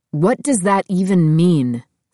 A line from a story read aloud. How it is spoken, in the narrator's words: Seth asked